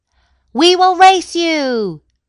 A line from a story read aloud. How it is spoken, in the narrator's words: shouted a man on the racing boat